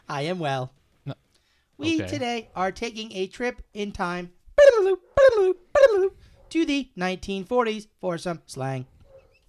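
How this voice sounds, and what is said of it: Robotic voice. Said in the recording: “Robot voice.”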